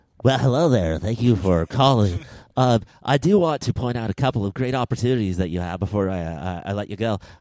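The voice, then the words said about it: Cheerful customer service voice. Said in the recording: “in your best customer service voice,”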